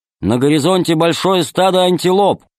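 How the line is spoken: Loud loudspeaker voice. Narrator (Russian): громко сказал динамик

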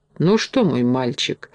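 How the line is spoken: Hesitant, after deep sigh. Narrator (Russian): решился, наконец, капитан, глубоко вздохнув

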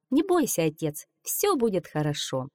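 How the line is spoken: Calm, unafraid girl. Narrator (Russian): девушка не испугалась и спокойно сказала

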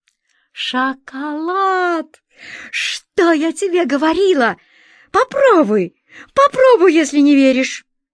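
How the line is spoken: Joyful exclamation. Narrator (Russian): она радостно воскликнула

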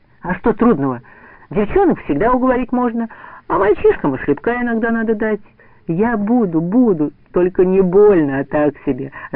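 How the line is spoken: Joyful agreement. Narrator (Russian): радостно соглашался Саша

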